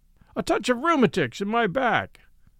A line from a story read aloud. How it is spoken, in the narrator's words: said the sergeant in a loud voice, as if he wanted some third person to hear us